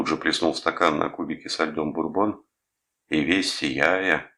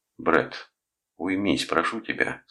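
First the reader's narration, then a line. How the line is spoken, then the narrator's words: Plain. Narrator (Russian): сказал Рудольф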